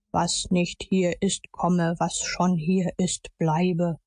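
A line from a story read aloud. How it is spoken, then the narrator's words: Solemn declaiming. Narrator (German): deklamierte mit feierlicher Stimme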